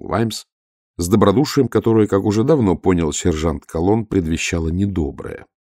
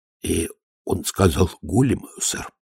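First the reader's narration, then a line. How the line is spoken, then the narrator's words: Mutter. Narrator (Russian): пробормотал Колонн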